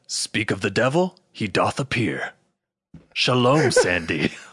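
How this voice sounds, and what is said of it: Impression of the character Caleb. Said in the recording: “It's a great Caleb impression.”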